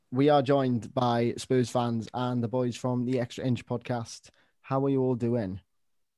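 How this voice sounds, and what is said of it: Welsh accent. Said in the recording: “sounds beautiful in a Welsh accent”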